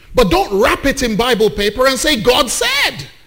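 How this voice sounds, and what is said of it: Raised, heated voice. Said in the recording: “I'm already raising my voice.”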